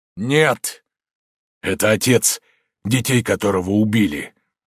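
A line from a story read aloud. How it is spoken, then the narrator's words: Dull muffled voice. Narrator (Russian): глухо проговорил маршал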